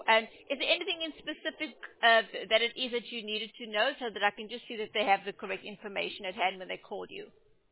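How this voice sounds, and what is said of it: Speaks with a noticeable accent. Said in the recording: “your accent is beautiful”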